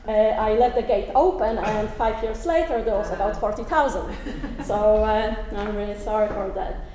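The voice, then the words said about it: Polish accent speaking English. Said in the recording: “as you can hear from my accent, I'm not Northern Irish. I'm actually Polish.”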